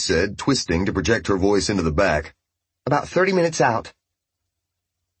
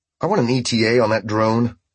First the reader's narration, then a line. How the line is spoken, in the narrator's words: he said, which only pissed him off more